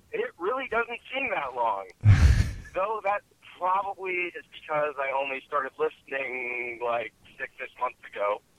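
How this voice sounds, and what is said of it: Chicago accent. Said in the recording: “You could hear that Chicago twang.”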